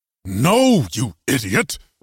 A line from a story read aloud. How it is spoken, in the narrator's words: Reginald growled